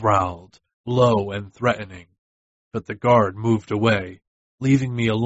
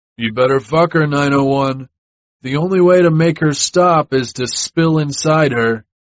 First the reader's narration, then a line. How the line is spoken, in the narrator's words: a guard called out